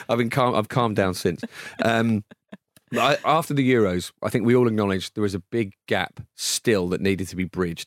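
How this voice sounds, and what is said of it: Hoarse, worn-out voice. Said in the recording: “you're wondering why my voice is like this, it's obviously because I've been shouting”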